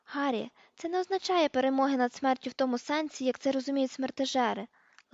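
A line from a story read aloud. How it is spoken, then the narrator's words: Gentle explanation. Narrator (Ukrainian): лагідно пояснила Герміона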